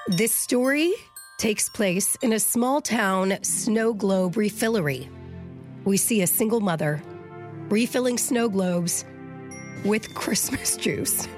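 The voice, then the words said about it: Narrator voice. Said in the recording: “I need a narrator voice.”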